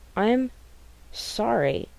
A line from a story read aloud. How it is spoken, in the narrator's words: Sam says, and he really sounds it